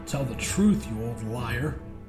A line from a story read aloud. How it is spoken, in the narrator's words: the man mumbled, showing his toothless maw as he smiled conspiratorially